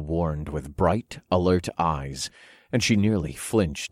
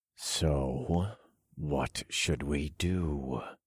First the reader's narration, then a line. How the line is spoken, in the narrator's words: I growled